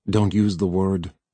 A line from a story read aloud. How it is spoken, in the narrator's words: said Harlan